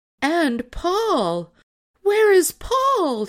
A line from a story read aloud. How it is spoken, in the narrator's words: she cried